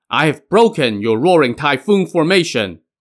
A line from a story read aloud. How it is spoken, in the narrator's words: Merciful Navigation shouted to Grand Tudor Wen